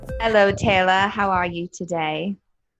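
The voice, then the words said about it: Put-on British accent. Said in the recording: “Love the British accent.”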